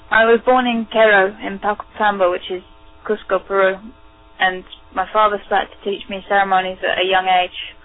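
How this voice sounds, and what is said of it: British or Irish accented English. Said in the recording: “she learned English in Great Britain, so you will hear a British or Irish accent”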